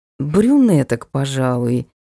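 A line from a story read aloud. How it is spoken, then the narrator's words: Uncertain. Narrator (Russian): неуверенно сказала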